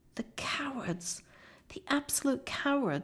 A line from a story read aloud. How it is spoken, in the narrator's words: sobbed